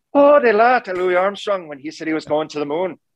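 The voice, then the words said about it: Put-on Irish accent. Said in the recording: “Do you have a good Irish accent?”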